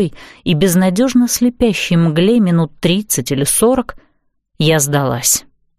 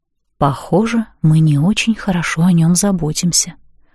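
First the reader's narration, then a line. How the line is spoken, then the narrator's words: Whispered. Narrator (Russian): Я шепнула Лиле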